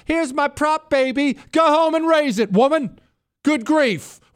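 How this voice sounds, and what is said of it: Raised, shouting voice. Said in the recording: “I didn't mean to raise my voice.”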